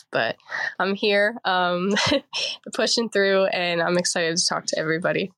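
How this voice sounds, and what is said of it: Congested voice. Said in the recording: “I sound a little congested. ... a little bit of a cold”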